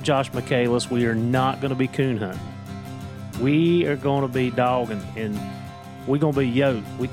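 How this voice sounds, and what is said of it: Southwest Virginia Appalachian accent. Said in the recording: “it's my accent, I'm telling you. It's the Southwest Virginia. ... that Appalachian slang is what it is. ... It's pretty deep in the roots here.”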